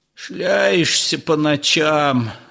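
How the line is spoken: Grumbling old man. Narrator (Russian): ворчал хозяин-старовер

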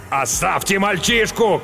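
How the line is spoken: Shouted, bloodied man. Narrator (Russian): крикнул римлянин, залитый кровью

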